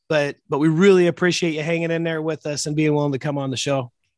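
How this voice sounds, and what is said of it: Voice altered, recovering from illness. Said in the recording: “We've had COVID, influenza running through the family... my voice is a little bit different. I'm coming out of it”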